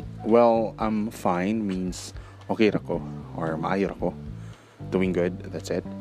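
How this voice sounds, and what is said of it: Usual voice. Nothing is said of it.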